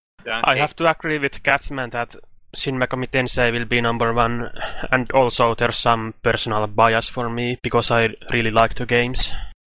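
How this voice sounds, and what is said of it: Finnish-accented English. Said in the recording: “I love your accent. ... Finland. ... He's from Finland. You can't tell? ... Voice is fucking badass”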